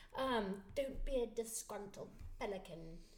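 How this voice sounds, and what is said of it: Imitated mixed British-sounding accent. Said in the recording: “It's a horrible accent, but it's so funny. ... it was British is what it was. ... But her accent is mixed.”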